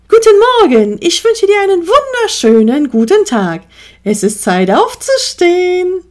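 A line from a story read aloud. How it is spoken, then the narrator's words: Cheerful fluting rooster. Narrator (German): flötete der Hahn fröhlich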